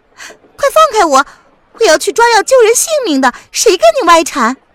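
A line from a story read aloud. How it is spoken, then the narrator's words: Insistent. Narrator (Chinese): 不依不饶地说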